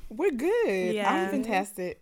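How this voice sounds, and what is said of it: Speaks in a put-on accent. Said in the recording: “Is that accent going to stay the whole time? ... It just comes and goes. Sometimes you get a bit of Nigerian.”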